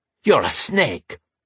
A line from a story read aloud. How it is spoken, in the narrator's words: Wulfric spat